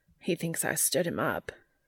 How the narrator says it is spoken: he says to Joe miserably

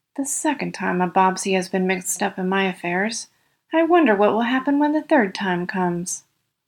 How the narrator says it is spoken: the aged man muttered

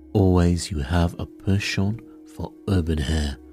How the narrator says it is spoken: murmured Poirot

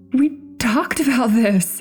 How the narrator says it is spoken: stuttered nervously

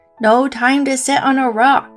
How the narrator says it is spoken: Frog yelled back

